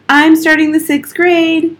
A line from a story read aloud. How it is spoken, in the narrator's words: yelled